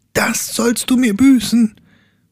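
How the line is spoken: Young man shouting. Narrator (German): schrie der Jüngling

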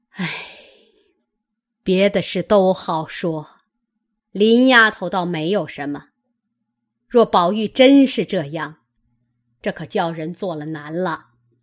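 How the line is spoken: Sighing. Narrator (Chinese): 贾母叹道

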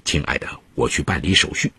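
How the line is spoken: Soft, tender. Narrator (Chinese): 柔声说了一句

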